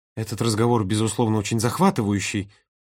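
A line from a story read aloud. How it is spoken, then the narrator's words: Hissed. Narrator (Russian): прошипел Володя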